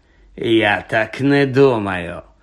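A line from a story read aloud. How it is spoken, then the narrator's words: Cold, smiling. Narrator (Ukrainian): холодно всміхнувся Снейп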